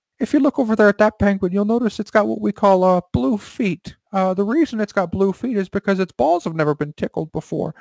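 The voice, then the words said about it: Imitates another person's voice. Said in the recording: “doing my George Lucas impersonation. ... That actually is a very good George Lucas. ... You need a little bit more rattle in your voice”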